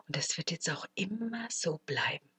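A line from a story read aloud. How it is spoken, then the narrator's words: Whispered. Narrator (German): flüsterte sie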